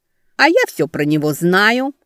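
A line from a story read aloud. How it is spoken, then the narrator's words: Shout. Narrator (Russian): крикнула водяная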